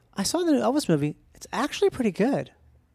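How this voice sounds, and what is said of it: Generic moviegoer impression voice. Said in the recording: “This is my impression of everyone who's watched that movie.”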